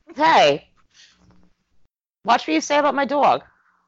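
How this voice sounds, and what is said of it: New York accent. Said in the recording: “That's that New York accent coming out”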